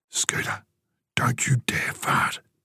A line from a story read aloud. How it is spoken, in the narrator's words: he whispered